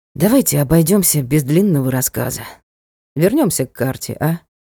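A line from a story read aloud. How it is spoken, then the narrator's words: Resigned sigh. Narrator (Russian): Ник обреченно вздохнул и предложил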